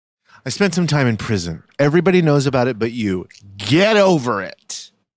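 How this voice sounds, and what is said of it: Put-on scary voice. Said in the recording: “That voice, the scary voice.”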